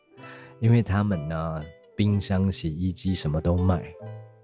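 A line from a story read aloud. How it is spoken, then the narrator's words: Bitter wry tone. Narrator (Chinese): 我有点苦闷的苦笑啊，我跟他说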